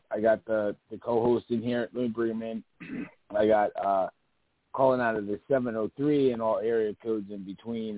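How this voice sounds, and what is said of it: Weak, fading hoarse voice. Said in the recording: “my voice is just slowly dwindling and going in and out ... my throat, sore throat”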